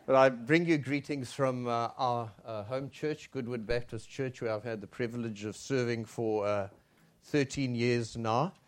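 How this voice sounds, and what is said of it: Unfamiliar regional accent. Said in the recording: “my accent sounds strange”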